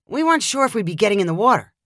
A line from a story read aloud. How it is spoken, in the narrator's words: Dylan replied